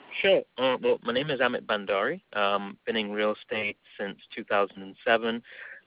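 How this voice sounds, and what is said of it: English accent. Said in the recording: “Obviously, you can tell from my accent, I'm from England.”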